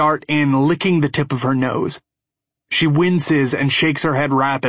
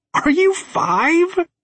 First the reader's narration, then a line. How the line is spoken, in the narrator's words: she squeals